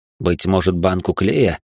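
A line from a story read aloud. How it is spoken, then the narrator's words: Snorting. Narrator (Russian): хмыкнул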